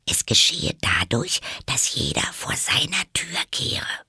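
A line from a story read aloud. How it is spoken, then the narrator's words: Whispered. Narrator (German): flüsterte Alice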